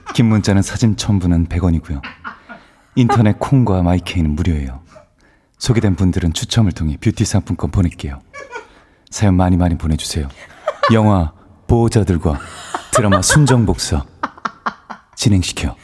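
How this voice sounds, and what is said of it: Jung Woo-sung impression. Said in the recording (Korean): “원래 성대모사는 톤이 조금이라도 벗어나면 ... 이게 완벽했어요. 처음부터 완벽했고 정우성 씨 온 줄 알았고”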